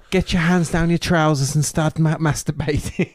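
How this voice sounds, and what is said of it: Impression of a Scottish woman. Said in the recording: “that's a good impression. ... she's Scottish. ... Yeah, she's Scottish, but yeah, great impression.”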